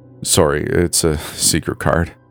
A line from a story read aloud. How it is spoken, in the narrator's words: Aaron said nervously